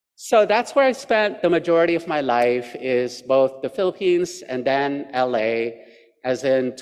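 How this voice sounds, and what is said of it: Usual voice. Nothing is said of it.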